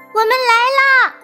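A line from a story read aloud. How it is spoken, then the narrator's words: Distant call. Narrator (Chinese): 不远处传来了小刺猬的呼喊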